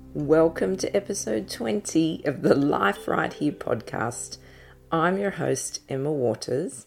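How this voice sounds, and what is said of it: Husky, deep voice. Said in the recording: “excuse my kind of husky deep voice this morning”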